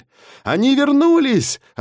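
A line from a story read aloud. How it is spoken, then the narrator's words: Yelling. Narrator (Russian): орал я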